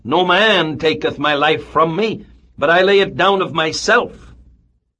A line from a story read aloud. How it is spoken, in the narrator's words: He had cried